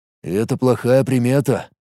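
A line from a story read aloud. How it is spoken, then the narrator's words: Gloomy. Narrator (Russian): мрачно произнес Мареш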